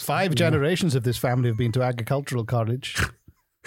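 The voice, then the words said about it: Put-on Saskatchewan-style accent. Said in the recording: “Where's that accent coming from? ... Is that that's how Saskatchewanians speak in your mind?”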